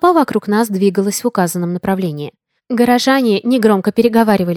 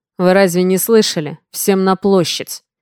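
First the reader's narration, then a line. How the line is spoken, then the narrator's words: Growled. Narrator (Russian): прорычал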